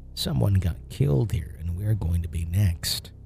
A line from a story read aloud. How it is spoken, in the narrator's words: whispered in an evil voice